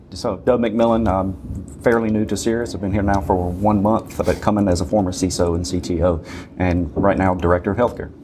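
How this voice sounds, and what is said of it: Deep Southern US accent. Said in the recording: “Thus the accent ... Deep Southern accent.”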